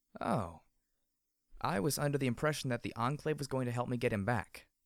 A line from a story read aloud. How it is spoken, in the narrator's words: said calmly